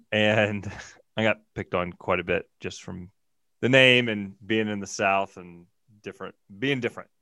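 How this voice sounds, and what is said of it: Thick Southern US accent. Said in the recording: “my thick Southern accent.”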